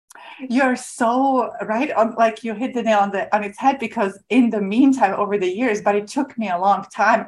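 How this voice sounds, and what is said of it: Foreign accent. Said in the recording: “I embraced that aspect of me as a foreigner. They notice my accent. ... when I stopped being upset that I had an accent”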